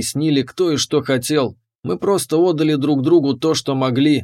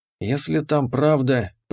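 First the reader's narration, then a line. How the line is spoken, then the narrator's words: Whisper to oneself. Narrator (Russian): прошептал себе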